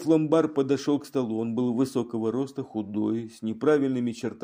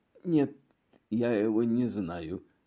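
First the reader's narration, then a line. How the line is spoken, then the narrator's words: Hoarse. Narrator (Russian): произнес он хриплым голосом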